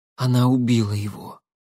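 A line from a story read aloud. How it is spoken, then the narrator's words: Breathed out. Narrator (Russian): выдохнула Шахиня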